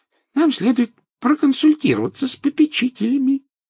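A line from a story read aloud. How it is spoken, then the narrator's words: Squeaky. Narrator (Russian): пропищал профессор Флитвик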